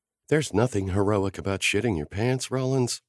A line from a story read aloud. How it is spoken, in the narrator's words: Sloane said under her breath